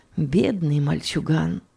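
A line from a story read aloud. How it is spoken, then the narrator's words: Whisper. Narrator (Russian): шептала госпожа Логман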